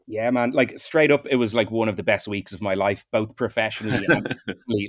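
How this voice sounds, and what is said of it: Light Irish accent. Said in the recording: “you are the first Irish accent that we have had on this show... I'm often told my accent is not heavily Irish... I'll put on the best brogue I can for you”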